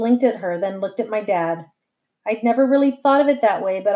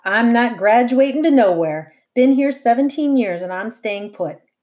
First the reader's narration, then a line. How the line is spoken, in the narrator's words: Josie added with a laugh